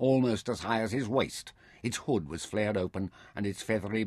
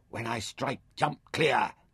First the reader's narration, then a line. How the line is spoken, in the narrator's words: he whispered